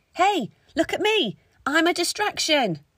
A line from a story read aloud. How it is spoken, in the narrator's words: Yasmin shouted as loud as she could